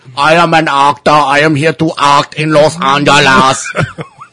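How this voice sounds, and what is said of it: Arnold Schwarzenegger impression, Austrian accent. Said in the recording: “Why did you pick a guy with an Austrian accent? ... where did you get the voice from, man? ... that is my twin brother, Arnold.”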